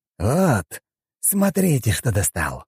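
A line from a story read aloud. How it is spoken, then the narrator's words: Hissed. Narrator (Russian): прошипел он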